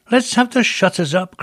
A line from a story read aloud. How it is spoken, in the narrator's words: cried old Fezziwig